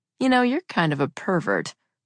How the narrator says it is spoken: I said around a giggle

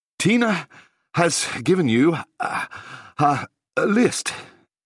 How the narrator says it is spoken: he said breathlessly

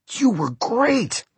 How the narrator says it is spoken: they cried

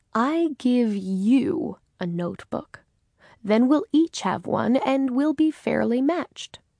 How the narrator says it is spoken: he said slowly

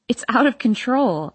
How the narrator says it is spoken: I laugh

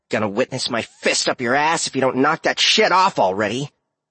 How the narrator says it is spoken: the fiend growled

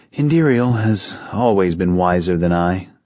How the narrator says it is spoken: Kai responded bitterly

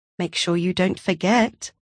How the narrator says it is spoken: Stasia murmured

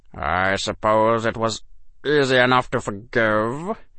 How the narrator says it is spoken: Severus said, and his voice was odd

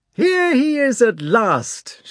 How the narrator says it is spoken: shouted Rostov

